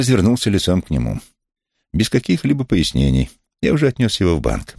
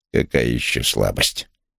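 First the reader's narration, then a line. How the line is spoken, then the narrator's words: Displeased grumble. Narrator (Russian): Недовольно пробурчал Вулф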